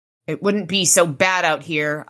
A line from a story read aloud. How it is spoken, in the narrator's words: I growled to Ramirez